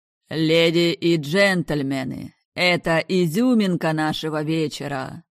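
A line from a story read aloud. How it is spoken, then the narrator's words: Booming announcer voice. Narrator (Russian): прогремел ведущий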